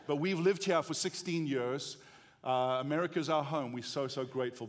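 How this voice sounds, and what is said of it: South African accent. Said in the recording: “What is that weird accent? Is it Australian? No, it's not. Is it British? No, it's not. It's South African.”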